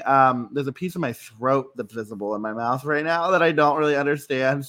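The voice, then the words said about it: Rough, sore-throated voice. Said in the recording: “I have been rallying from like this weird sore throat situation. So if my voice sounds terrible”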